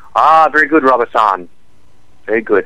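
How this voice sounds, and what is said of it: Exaggerated put-on Asian accent. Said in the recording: “my racist impression ... If there are any Asian, Orientals listening to the show”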